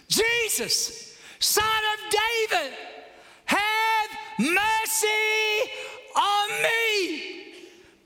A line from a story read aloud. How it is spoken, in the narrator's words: shouts